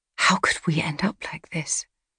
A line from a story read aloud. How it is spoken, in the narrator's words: She whispered to the stormy sky